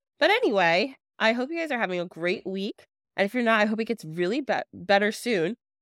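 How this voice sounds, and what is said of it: Congested voice from a cold. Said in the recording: “my voice sounds a little crazy. I'm a little congested, got a little cold”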